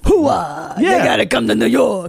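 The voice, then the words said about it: Al Pacino New York accent impression. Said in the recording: “His Al Pacino New York.”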